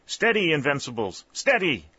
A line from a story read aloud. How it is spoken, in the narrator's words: Colonel Talbot shouting